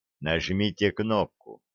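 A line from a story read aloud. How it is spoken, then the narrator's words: Quiet. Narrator (Russian): тихо сказал он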